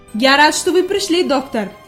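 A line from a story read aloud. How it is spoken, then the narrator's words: Exclaiming. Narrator (Russian): воскликнул господин Сесман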